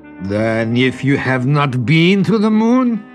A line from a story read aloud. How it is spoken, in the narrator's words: sneered Prince Azov